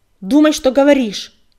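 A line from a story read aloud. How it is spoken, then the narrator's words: Yelling. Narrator (Russian): заорал он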